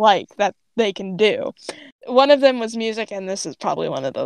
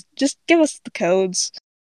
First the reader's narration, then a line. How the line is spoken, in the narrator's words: Grape lets out a mix of a sigh and a growl and then just says